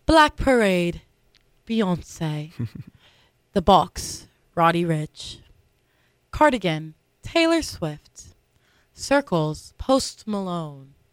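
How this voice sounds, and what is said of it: Announcer-style narrator voice. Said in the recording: “with my narrator voice”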